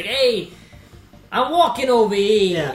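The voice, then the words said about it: Mock Brooklyn accent sounding Bostonian. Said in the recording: “that little Brooklyn accent and it sounds more like Boston”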